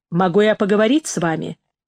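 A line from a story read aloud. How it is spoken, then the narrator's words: Plain. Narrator (Russian): спросил Арлекин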